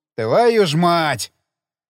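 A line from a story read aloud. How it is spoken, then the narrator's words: Hasty shout after someone. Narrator (Russian): Шумов поспешил крикнуть ему в спину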